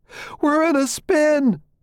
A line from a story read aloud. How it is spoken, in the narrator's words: Lewis screams